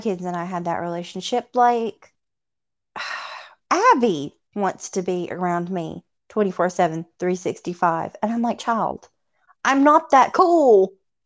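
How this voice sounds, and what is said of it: Southern US Tennessee accent. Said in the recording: “I love your accent. ... I'm from Tennessee ... Southern. ... usually my accent's enough of an introduction”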